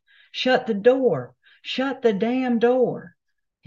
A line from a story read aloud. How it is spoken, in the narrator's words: yelled as loud as he could